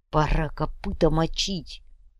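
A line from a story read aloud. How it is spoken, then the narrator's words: Whispered. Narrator (Russian): прошептал стоящий рядом боец Ручка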